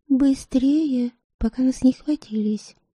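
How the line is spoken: Whisper. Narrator (Russian): шепнула она

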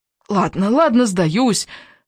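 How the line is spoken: Hoarse. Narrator (Russian): хрипло отвечаю я

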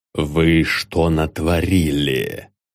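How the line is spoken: Restrained muttered whisper. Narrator (Russian): пробормотал сдержанным шепотом

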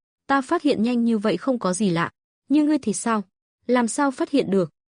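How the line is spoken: Smiling. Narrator (Vietnamese): Lộ Thần mỉm cười, rồi nói

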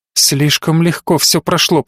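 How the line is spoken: Mumbled. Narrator (Russian): пробормотала та

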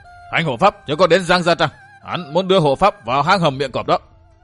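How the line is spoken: Wounded man screaming. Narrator (Vietnamese): Tên thủ hạ bị thương nơi cổ, máu chảy đẫm vai áo gào lên

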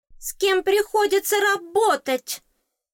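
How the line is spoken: Exclaimed. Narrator (Russian): воскликнуло существо

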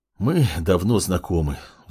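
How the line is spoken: Sigh. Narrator (Russian): вздохнула Кимура

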